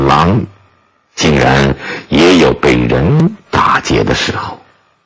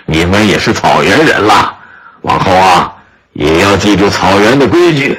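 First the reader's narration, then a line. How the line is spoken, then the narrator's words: Old man, smiling. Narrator (Chinese): 老人也笑了笑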